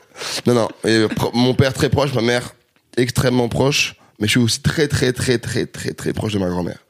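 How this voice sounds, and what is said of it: Strong Québécois French accent. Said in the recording (French): “Le petit accent du Québec ... T'as plus l'accent québécois que le seul québécois qui est venu dans cette émission”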